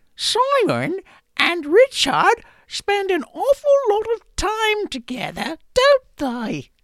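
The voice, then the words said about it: Bad female voice, bad British accent. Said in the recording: “my bad female impersonation voice. I'm also going to do it with a bad British accent,”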